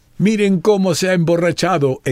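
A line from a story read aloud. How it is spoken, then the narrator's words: Exclaiming. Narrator (Spanish): exclamó uno de ellos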